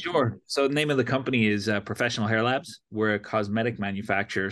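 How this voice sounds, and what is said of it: Irish accent. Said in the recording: “you have an Irish accent already ... the accent swings back and forth”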